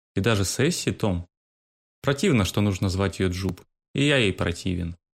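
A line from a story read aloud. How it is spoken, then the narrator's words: Gloomy reply. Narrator (Russian): мрачно отвечал Том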